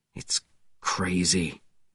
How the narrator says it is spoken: Webb said quietly

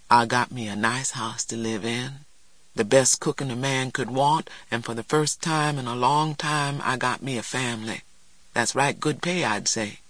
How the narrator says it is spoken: Morrison said softly

